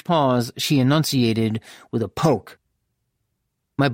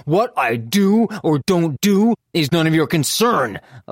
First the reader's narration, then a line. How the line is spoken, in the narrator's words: I snapped